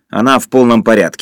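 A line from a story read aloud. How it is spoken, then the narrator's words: Angry. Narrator (Russian): сердито сказал Юра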